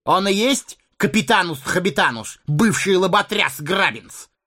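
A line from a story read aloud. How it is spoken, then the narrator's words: Barked shout. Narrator (Russian): гаркнул желтолицый бандит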